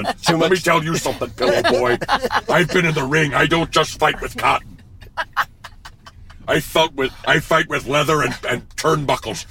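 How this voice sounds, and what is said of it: Jesse Ventura impression. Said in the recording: “do a Jesse Ventura impression”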